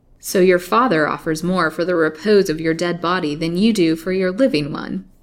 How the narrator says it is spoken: he said, laughing

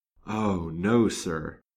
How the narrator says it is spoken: said she mournfully

